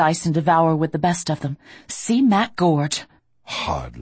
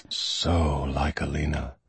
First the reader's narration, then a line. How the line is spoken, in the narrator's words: he murmurs